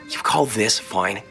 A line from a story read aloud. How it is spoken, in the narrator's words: scoffed